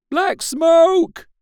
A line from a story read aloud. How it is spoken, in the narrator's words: the voices cried